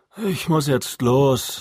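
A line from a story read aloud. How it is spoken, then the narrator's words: Sighing. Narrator (German): sagte Matt seufzend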